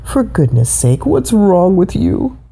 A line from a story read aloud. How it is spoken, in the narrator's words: Papa T-Rex groaned